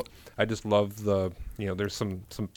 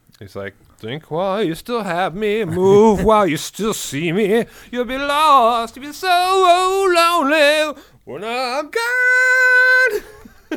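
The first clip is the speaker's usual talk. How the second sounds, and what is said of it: Imitates another person's singing voice. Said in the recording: “my terrible music impersonations”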